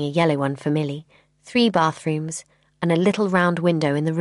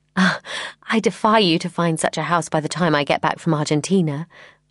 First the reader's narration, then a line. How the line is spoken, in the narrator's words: I laughed